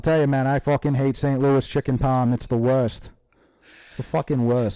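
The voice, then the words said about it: Put-on exaggerated regional accent. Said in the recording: “this accent's the same as my John Kennedy accent.”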